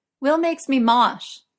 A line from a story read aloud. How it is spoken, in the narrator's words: Merlin yelled back mysteriously